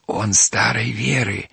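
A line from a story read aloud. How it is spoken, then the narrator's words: Whispered, two voices. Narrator (Russian): ответили шепотом Степка и Вася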